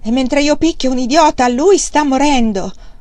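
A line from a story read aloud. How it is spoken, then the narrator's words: Exclaimed. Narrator (Italian): Wang Lung esclamò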